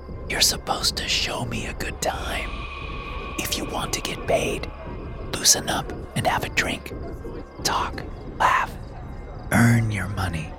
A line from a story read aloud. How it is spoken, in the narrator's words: smiling, and whispered